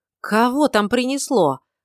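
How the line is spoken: Exhaled in unison. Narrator (Russian): в один голос выдохнули Гил с Марикой

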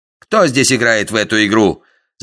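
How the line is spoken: Heated shout. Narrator (Russian): закричал запальчиво Дикон

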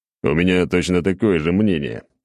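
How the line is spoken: Laughing. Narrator (Russian): хохотнул я

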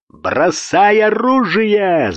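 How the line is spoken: Yelling. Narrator (Russian): заорал Гуров

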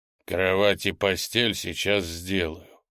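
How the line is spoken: Giant's deep bass. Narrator (Russian): пробасил великан

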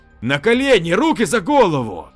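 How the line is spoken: Near shout. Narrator (Russian): Лев почти крикнул

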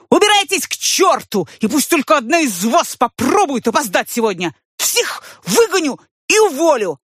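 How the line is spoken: Shouting. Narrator (Russian): он закричал всем

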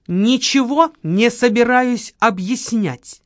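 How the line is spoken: Snapping back. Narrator (Russian): огрызнулась Камила

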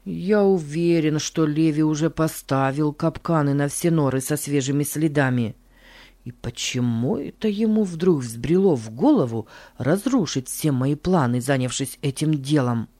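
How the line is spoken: Muttered. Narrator (Russian): бормотал Джордж

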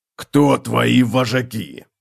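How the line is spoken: Growl. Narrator (Russian): прорычал он

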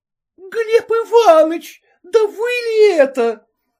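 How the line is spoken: Exclaimed at top of voice. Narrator (Russian): воскликнула во все горло

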